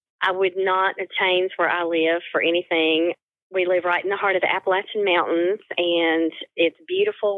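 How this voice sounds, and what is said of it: Subtle Northeast Tennessee accent. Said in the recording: “I have a subtle accent. ... the accent you're hearing is Northeast Tennessee”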